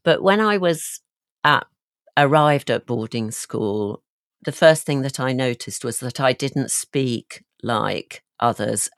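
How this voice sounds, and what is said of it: Mild Yorkshire accent. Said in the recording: “not that I had a really broad Yorkshire accent, and those listeners who are from Yorkshire will have already detected my accent”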